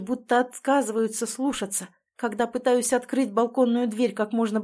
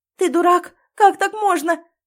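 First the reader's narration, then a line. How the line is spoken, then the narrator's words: Sobbing to herself. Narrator (Russian): Всхлипываю скорее сама себе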